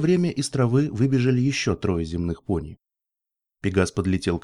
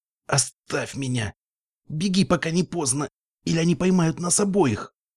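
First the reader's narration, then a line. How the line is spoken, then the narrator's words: Hissed through teeth. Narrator (Russian): процедила Мара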